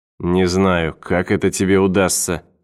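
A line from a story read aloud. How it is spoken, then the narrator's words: Grumbled reply. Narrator (Russian): проворчал в ответ Мортон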